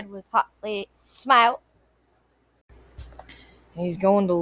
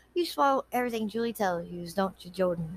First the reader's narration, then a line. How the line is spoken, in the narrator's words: She asked quietly